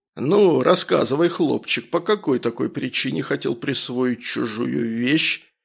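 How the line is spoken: Menacing bark. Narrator (Russian): Как можно более грозным тоном рявкнул я

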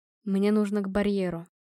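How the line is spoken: Quiet. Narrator (Russian): тихо сказал он

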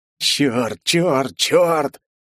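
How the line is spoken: Hoarse whispered cursing. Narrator (Russian): Мои хриплые ругательства тихим шепотом

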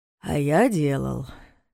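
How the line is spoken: Sighing. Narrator (Russian): вздохнул Соболев

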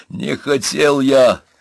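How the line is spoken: Moan. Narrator (Russian): простонал Пашкевич

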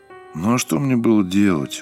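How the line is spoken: Said glumly. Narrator (Russian): уныло проговорил Сергей

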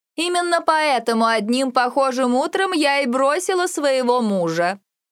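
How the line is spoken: Loud, meant to be overheard. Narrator (Russian): Добавила она достаточно громко, чтобы непременно услышал

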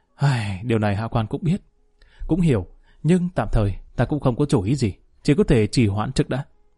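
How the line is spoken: Sighing. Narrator (Vietnamese): Lý Kỳ thở dài nói

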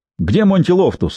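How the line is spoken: Barked. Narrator (Russian): рявкнул он

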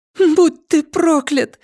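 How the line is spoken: Tearful exclamation, woman. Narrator (Russian): воскликнула она со слезами в голосе

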